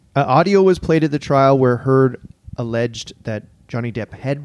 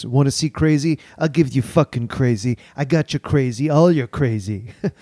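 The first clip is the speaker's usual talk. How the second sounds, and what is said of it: Imitates another person's voice. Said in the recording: “You're really good at the impression... It's better every time.”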